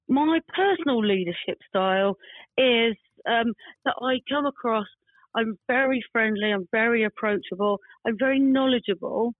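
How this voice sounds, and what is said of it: Slight Cockney accent. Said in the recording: “I have a bit of a Cockney accent.”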